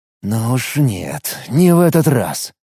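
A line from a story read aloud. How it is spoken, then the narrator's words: Angry mutter. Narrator (Russian): зло пробормотал Алекс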